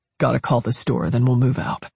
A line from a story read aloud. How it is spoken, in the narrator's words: Hicks muttered